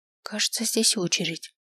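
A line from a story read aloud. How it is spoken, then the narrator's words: Fearful whisper. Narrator (Russian): шепнула, боясь, что они нас услышат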